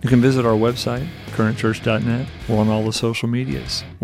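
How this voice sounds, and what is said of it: Announcer-style radio voice. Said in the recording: “This is my best radio voice.”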